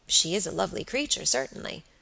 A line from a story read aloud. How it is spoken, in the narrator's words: murmured Robert, with placid admiration